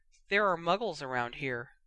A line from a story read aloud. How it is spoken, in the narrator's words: Harry said very quietly